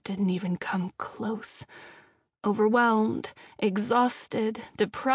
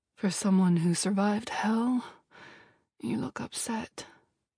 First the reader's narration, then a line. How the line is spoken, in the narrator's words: John murmured a soft